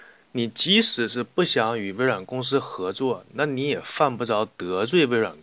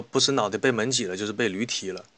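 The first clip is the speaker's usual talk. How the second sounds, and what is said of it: Northeastern Chinese dialect. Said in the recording (Chinese): “用东北话说”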